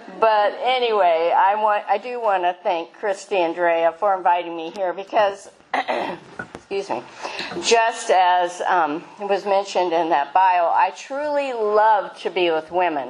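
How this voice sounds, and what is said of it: Nasal, congested voice from a cold. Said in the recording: “forgive my voice. I had a cold this past week and I've been fighting it off. So if I sound a little nasally”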